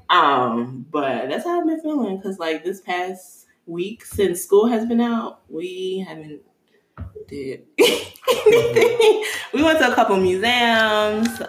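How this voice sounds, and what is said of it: Chicago accent. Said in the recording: “I love how you said museums. Your Chicago accent.”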